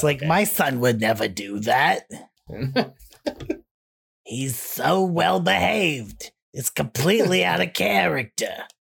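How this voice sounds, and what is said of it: Imitated Jewish mother voice. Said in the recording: “It's Jewish mother denial. ... you can't do that voice. I can do that voice.”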